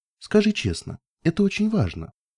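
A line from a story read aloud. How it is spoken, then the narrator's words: Gentle but trembling voice. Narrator (Russian): постаралась выговорить я как можно более ласково, но мой голос дрожал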